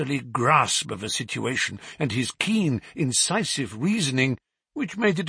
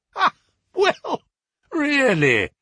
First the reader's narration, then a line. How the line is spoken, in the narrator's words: he cried